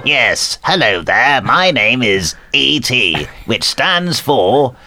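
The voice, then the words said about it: E.T. impression resembling David Mitchell. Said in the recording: “my impression was very good ... You sound a bit like, what's his name, from Peep Show, then? ... David Mitchell ... You're a bit David Mitchell ... you wouldn't get a medal for that”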